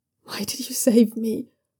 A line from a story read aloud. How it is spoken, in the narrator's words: Jaulan whispers